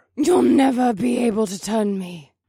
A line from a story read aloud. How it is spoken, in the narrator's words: her voice echoed